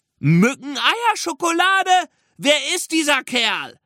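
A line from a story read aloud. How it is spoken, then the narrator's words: Call. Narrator (German): rief ein anderer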